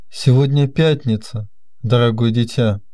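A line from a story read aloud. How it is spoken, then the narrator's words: Calm, suppressed agitation. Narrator (Russian): Сердце мистера Гарди сильно забилось, но он овладел собою и спокойно ответил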